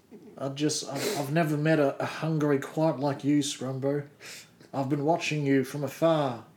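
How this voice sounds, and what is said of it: Creepy character voice. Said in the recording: “creepy voice”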